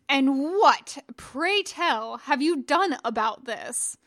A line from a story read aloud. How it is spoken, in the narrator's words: thundered at the young knight